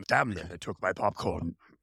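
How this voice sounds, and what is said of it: Imitates another person's voice. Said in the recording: “That was my best impression of him.”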